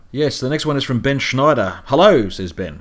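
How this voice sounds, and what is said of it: Australian accent. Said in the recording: “you guys sounded late 20s. Must be the accent ... the Australian accent”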